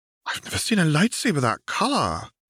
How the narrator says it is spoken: several of them murmur, awed

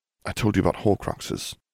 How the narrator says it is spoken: he murmured

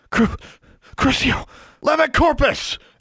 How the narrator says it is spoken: Alexandra shouted

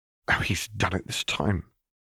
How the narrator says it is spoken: Rosalina muttered to herself

